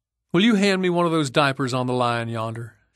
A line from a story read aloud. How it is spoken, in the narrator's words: she said